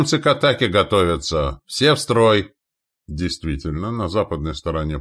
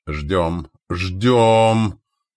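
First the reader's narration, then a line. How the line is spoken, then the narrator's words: Through gritted teeth. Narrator (Russian): сквозь зубы процедил Назар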